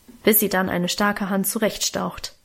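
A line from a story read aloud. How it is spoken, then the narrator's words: Grumbled. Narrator (German): brummte Auguste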